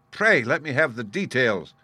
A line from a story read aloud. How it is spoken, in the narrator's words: I cried